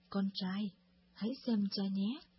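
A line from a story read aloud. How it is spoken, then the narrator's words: Smiling father. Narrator (Vietnamese): Người cha mỉm cười và nói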